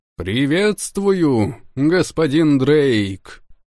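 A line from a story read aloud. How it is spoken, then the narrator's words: Loud. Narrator (Russian): громко произнес Алти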